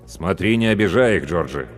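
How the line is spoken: Stern warning. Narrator (Russian): строго предупредил он бригадира

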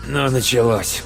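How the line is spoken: Rough grumble. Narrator (Russian): грубо буркнул Лори

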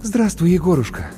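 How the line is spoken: Relieved exhale. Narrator (Russian): облегченно выдохнула Маша

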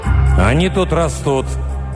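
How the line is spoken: Strained growl. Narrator (Russian): прорычал натянуто Руго

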